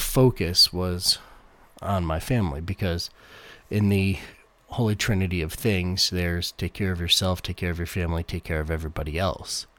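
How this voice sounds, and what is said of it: Sick-sounding, unwell voice. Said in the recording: “You might hear that my voice isn't right either. I've been sick for a week and a half now”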